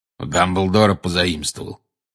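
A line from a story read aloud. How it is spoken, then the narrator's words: Growled. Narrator (Russian): прорычал Грюм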